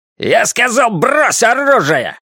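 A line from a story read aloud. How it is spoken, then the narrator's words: Barked command. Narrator (Russian): рявкнул силуэт у лестницы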